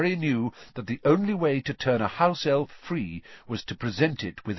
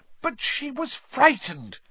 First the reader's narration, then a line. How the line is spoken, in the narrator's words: Hermione burst out angrily